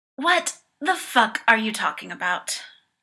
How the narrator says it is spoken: Paul sighs

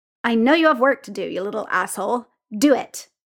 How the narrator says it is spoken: Chief growled

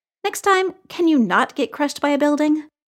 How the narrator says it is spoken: Clint chuckled

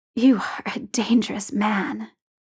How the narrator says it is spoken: says hoarsely

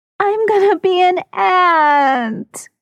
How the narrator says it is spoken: Cassidy wails

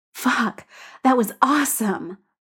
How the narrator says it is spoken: pants

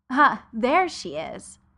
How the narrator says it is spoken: Adora exclaimed

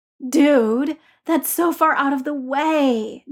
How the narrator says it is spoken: Ned groaned

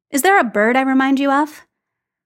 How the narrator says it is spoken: Phil chuckled

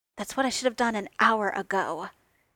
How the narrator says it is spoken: he snarled

